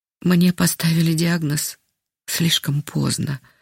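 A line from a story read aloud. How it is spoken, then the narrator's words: Sighing. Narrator (Russian): вздохнула она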